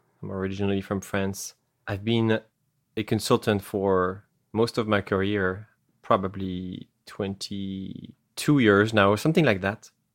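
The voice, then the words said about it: French accent. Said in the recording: “I have an accent because I come from France.”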